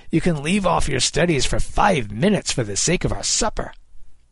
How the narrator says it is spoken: Kid snapped

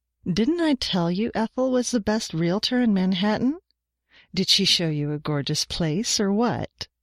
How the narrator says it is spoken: Janet said

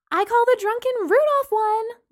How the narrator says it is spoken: Lana shouted

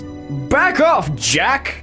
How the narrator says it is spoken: he snapped

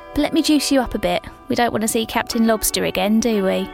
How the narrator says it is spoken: She chuckled

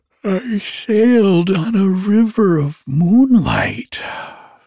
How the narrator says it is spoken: the little otter declared with a yawn

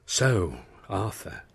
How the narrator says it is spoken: she breathed

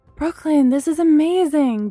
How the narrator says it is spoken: Bree cried

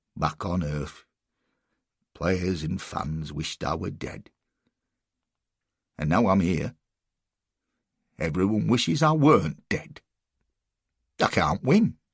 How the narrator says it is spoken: He shook his head sadly and said

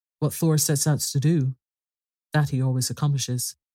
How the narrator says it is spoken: said Father Odin gravely

